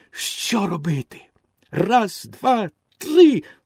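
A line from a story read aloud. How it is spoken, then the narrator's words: Wooden boy exclaiming. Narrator (Ukrainian): вигукнув дерев'яний хлопчик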